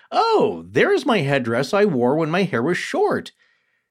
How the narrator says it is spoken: The girl immediately exclaimed

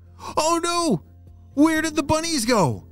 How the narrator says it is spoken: shouted Waverly

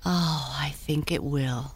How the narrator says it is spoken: sighed Tinkle

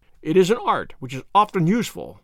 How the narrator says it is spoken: said he

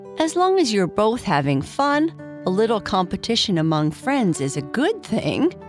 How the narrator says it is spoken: Papa Bear said, laughing

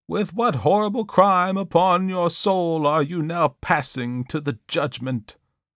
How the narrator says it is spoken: exclaimed the affrighted minister

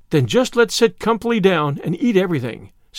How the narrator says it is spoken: said Miss Lavendar happily

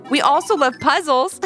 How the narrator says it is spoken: giggled Ivy

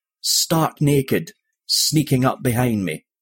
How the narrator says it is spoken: the man choked

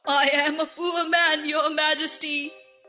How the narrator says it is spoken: the Hatter began in a trembling voice

